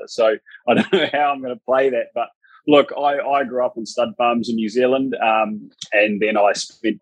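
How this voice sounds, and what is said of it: New Zealand accent. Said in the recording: “Sounds like a Kiwi accent”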